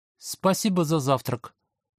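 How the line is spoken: Mumbled with full mouth. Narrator (Russian): прошамкал я с полным ртом

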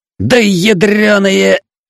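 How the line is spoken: Roaring. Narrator (Russian): взревел он

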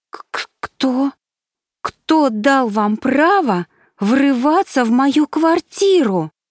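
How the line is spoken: Fairy's indignant exclamation. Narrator (Russian): С видом оскорбленной невинности воскликнула фея

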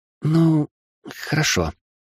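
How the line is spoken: Uncertain babbling, female mage. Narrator (Russian): неуверенно пролепетала магичка

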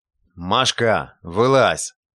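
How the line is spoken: Gruff watchman commanding. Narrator (Russian): Сторож громко отхаркнул и приказал

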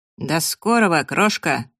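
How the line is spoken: Cheerful, through clenched cigarette. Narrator (Russian): бодро процедил Фрэнк, держа в зубах очередную сигарету

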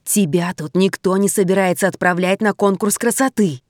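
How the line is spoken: Hissing. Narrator (Russian): зашипела Логинова

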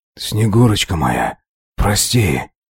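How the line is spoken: Breathy whisper. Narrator (Russian): То ли прошептал, то ли выдохнул я

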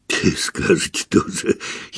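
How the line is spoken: Giggling. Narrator (Russian): хихикнул Виктор

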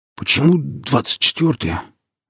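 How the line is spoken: Suddenly hoarse question. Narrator (Russian): внезапно осипшим голосом спросил я

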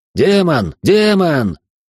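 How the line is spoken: Loud yell. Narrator (Russian): громко проорал он

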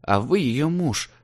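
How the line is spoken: Confused mumbling. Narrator (Russian): Бормочу спутанно

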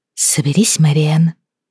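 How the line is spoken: Stern whisper imitating mother. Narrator (Russian): строгим шепотом приказала она себе, подражая голосу матери

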